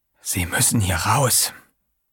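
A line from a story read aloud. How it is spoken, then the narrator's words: Whispering. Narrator (German): flüsterte er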